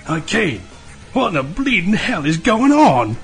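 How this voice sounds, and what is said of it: Thick British accent character voice. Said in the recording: “with a thick British accent.”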